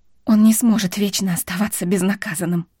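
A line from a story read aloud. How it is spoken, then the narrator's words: Hoarse, overwhelmed with emotion. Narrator (Russian): прохрипела Вив, раздавленная собственными эмоциями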